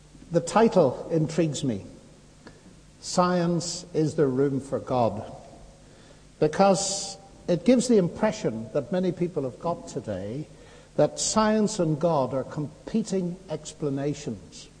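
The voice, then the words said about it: Accent different from previous speaker. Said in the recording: “I hope you don't mind the change in accent.”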